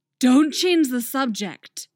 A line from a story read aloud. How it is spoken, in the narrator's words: Artemis snarls